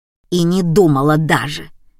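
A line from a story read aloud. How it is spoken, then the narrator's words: Angry retort. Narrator (Russian): сердито отбрила меня Марина Степановна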